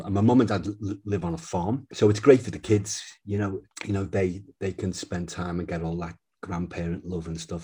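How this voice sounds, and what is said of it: Liverpool English accent. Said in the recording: “you've kept a bit of your accent ... the accent, Liverpool accent, doesn't leave you”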